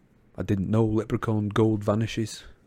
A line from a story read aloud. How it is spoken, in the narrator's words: Ron muttered